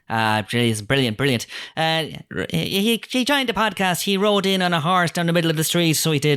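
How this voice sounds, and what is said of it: Put-on Irish accent. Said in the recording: “you're trying an Irish accent too, the same way they did in the trailer”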